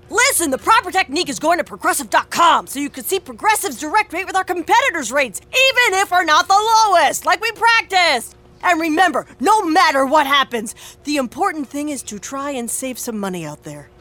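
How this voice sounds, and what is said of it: Coach-style pep talk voice. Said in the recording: “my impression of a coach giving the ultimate pep talk”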